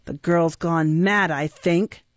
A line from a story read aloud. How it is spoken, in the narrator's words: replied Sykes savagely